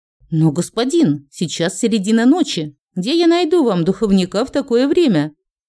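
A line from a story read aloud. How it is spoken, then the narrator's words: Frightened stammering. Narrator (Russian): пролепетал напуганный управляющий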